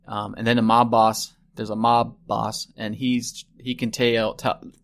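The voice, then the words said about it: Put-on Southern accent. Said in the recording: “I don't know why I just went into a southern accent”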